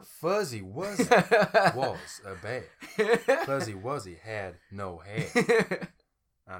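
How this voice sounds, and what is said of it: Attempted Southern US accent. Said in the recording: “in a southern accent ... I tried.”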